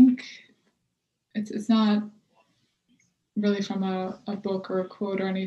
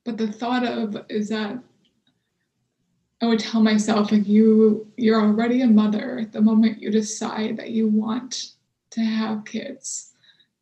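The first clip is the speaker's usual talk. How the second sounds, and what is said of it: Emotional, choked-up voice. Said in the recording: “I get emotional thinking about it.”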